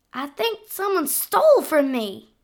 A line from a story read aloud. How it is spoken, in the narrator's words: she cried